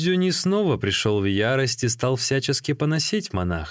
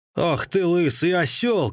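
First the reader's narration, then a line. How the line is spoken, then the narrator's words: Shouting. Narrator (Russian): кричал он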